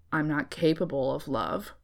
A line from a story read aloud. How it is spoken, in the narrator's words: he grumbled